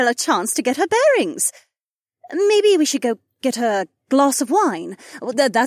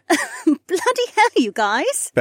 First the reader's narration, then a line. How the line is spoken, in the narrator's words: Becca laughed